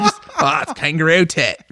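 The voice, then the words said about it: Bad put-on Australian accent. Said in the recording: “I have to put up with my bad Australian accent. ... Not as good as my Sean Connery accent”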